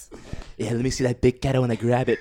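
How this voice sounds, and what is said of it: Donald Trump impression. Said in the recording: “That impression is too close. ... Oh god, Donald Trump.”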